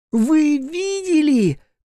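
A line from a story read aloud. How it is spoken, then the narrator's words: Disbelieving shout. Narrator (Russian): крикнула, не веря собственным глазам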